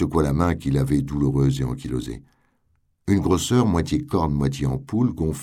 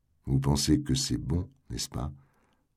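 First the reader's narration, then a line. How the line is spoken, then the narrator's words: Gentle question. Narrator (French): demanda-t-elle doucement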